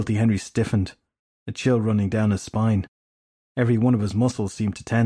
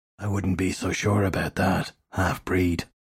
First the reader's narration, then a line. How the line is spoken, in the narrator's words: a rasping voice said from everywhere at once